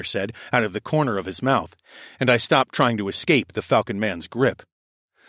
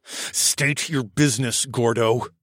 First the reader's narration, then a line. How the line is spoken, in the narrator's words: I said through gritted teeth